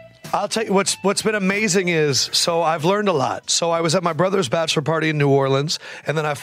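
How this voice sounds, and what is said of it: Usual voice. Nothing is said of it.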